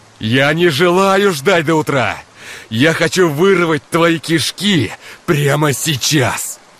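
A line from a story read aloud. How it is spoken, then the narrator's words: Yelling louder into phone. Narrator (Russian): Все сильнее орал Игорь в трубку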